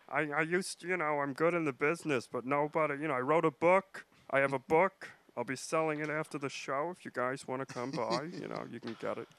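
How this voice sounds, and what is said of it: Imitates another person's voice. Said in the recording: “That's a great impression... Is that a good Fred Stoller?”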